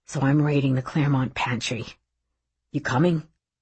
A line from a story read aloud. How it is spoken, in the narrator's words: he whispered